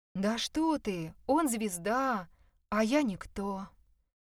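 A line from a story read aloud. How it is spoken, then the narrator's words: Sighing. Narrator (Russian): вздохнула Люда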